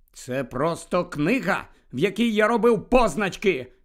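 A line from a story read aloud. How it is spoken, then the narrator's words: Shouted. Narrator (Ukrainian): крикнув Гаррі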